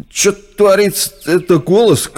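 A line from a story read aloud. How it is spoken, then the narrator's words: Shout. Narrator (Russian): крикнул другой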